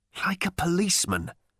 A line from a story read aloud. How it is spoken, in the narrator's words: he hissed at Ford, with his brow savagely furrowed